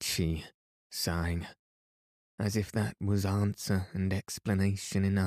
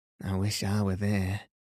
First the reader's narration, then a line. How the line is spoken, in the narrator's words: said Bessie, wearily